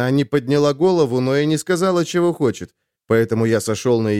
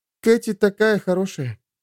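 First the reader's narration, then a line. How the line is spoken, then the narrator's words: Almost sad. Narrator (Russian): сказала она, почти печально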